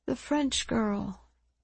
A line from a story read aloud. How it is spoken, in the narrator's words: Miss London said quietly, almost to herself